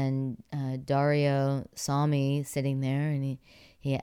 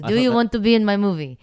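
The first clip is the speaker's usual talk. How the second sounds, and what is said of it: Broken English Italian accent imitation. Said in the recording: “I'm terrible at accents. ... That's an excellent Russian. ... I know, he's Italian.”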